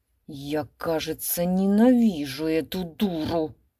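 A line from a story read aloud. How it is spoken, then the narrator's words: Muttered. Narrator (Russian): пробормотал он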